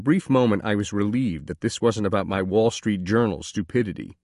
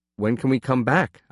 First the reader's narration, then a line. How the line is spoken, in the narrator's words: asked nervously